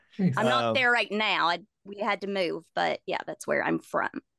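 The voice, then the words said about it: Appalachian accent. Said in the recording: “your accent is absolutely amazing”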